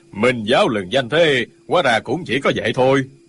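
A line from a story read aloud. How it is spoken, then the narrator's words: Old man sneering. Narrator (Vietnamese): Lão già bên phải cười khẩy nói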